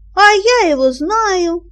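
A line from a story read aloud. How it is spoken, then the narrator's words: Boy shouting. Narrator (Russian): закричал один мальчик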